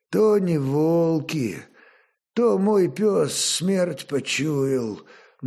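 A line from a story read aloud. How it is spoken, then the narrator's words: Gloomy, forced words. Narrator (Russian): мрачно выдавил лемеш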